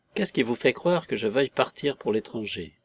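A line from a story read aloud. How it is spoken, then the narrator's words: Calm question. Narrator (French): demanda-t-il enfin d'un ton calme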